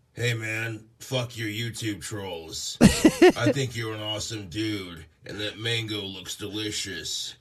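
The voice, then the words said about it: Deep masculine character voice. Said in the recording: “he's giving Puff an even more masculine voice than his own”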